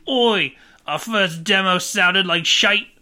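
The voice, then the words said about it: Put-on British accent. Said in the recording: “I can't do a British accent, I can't do British ... British Thiessen”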